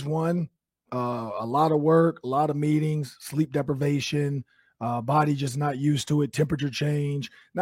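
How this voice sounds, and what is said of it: Hoarse, strained, nearly lost voice. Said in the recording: “I lost my voice. I did. ... I lost my voice.”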